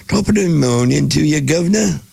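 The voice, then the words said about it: Poor put-on Cockney accent. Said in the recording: “I don't have a good British accent. ... That's still Cockney.”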